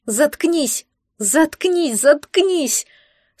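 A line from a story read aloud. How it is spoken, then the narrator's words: Tearful scream. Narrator (Russian): Со слезами закричала служанка в дорогих тряпках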